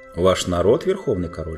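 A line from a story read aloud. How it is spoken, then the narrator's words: Plain. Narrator (Russian): спросил Тириан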